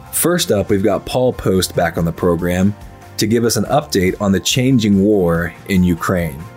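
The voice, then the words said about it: Sick, grating voice. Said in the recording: “I'm a bit under the weather today, as you can probably hear in my voice ... however grating my voice is ... however difficult it is to listen to me today”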